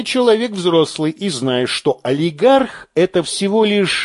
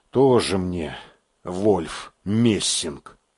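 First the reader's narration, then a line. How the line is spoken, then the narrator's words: Muttered. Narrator (Russian): буркнул Белозеров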